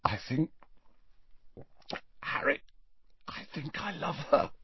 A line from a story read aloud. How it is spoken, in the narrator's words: said Ron in a strangled voice